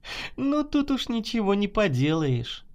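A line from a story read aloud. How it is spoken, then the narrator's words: Laughing. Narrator (Russian): засмеялась Наташа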